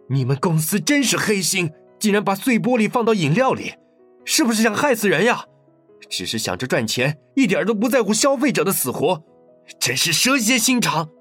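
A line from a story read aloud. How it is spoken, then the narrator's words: Angry. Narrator (Chinese): 愤怒地说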